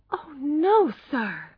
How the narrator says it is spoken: she cried, horrified

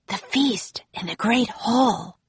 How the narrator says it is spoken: whispered Jack

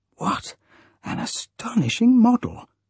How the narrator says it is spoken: whispered Huey

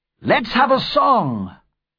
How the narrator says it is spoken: cried one of the men

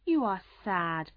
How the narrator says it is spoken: said in a worried voice

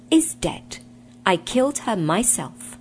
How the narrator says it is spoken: said sternly

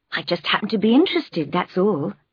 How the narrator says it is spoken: she replied

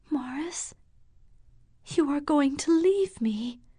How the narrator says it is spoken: murmuring

